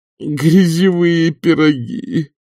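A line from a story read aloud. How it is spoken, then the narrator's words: Moaning. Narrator (Russian): простонал мэтр д'отель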